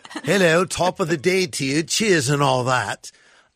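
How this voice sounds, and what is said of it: Put-on posh British accent. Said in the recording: “my best version of speaking like a British person ... I'm being a bit posh right now”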